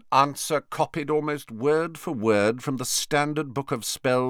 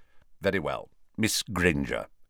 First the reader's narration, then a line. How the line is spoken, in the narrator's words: saying curtly